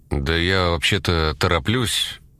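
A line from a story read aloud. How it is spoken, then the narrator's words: Grumbled. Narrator (Russian): буркнул он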